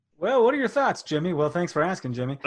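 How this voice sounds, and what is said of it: Radio announcer voice. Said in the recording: “A little radio voice, though.”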